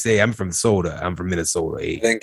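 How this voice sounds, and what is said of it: Exaggerated Minnesota accent. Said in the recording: “she had that super Minnesota accent. ... she talked like this.”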